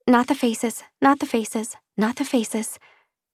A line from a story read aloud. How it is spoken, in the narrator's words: Padma, who muttered to herself